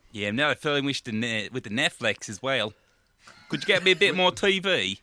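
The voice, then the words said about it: Mixed Ecuadorian, Australian, Irish twang. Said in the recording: “your accent's been fading. You've got a kind of Ecuadorian, Australian, Dublin kind of twang.”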